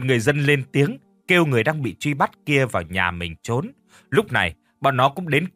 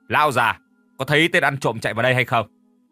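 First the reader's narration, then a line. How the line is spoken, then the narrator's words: Loud question. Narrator (Vietnamese): hắn lớn tiếng hỏi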